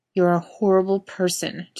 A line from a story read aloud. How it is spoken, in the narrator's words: Jensen tells him miserably